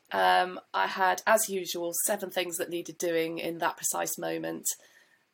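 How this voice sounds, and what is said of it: Congested voice from a cold. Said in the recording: “I've actually got a stinking cold. I don't know if you can hear it in my voice. I've got a horrible cold.”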